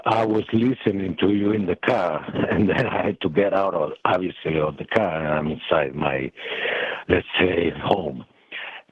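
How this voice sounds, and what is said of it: Western European accent. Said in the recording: “I was born and grew up in Western Europe. You can hear my accent”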